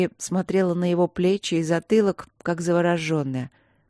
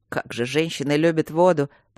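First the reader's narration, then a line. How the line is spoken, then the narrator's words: Grumbling. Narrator (Russian): проворчал он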